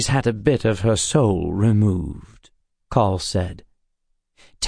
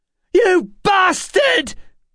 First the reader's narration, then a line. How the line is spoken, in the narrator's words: Emma shouted